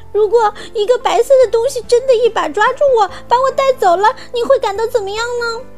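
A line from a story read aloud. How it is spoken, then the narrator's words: Crying. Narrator (Chinese): 安妮哭着说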